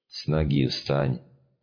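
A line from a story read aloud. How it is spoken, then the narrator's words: Grumbling. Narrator (Russian): буркнул Толик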